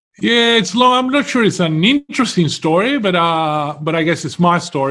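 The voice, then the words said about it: Non-Australian foreign accent. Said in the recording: “by your accent, you weren't born in Australia”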